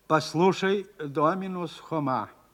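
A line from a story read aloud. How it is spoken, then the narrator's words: Plain. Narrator (Russian): сказал ректор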